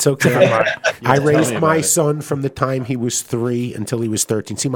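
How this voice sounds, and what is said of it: Usual voice. Nothing is said of it.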